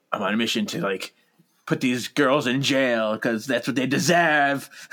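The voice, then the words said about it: Deeper voice for a character. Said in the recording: “your voice gets deeper when you're being Sheridan”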